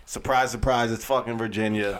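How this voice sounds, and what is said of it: Sarcastic delivery. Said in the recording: “That's the sarcasm. ... it was sarcasm”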